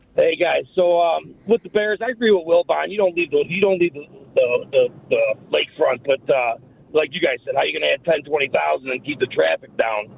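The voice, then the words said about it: Chicago accent. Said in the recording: “what kind of accent do you got there ... Chicago, baby. ... I could tell right away.”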